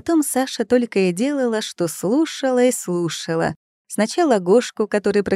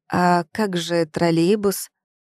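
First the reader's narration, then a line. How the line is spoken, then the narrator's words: Sleepy surprise. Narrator (Russian): Удивлялась Саша, сонно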